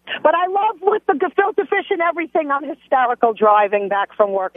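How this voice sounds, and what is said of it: Strong Brooklyn accent. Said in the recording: “I grew up in Brooklyn. Obviously, my accent ... the word accent should be spelled with A-X-E ... the word accent takes on a new meaning with you. You're worse than me.”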